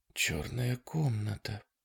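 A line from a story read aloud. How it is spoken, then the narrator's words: Whisper. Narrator (Russian): прошептала Дана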